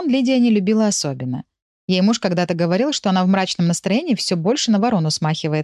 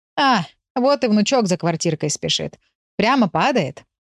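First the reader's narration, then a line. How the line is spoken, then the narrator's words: Laughing. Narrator (Russian): рассмеялась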